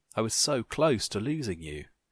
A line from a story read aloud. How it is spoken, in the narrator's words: he sobbed